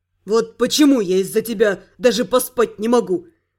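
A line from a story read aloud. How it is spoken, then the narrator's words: Angry growl, man. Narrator (Russian): Зло рыкнул блондин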